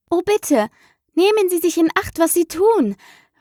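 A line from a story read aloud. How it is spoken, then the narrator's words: Frightened cry. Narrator (German): rief Alice, die in wahrer Herzensangst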